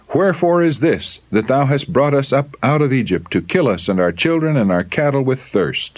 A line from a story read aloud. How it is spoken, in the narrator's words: They cried in anger